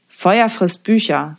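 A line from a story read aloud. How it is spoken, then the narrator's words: Plain. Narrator (German): sagte er immer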